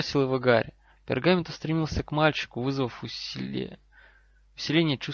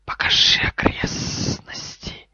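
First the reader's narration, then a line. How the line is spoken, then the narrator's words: Hiss. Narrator (Russian): профессор Квирл прошипел ему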